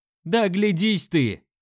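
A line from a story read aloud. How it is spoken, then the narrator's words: Man's bark. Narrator (Russian): рявкнул мужик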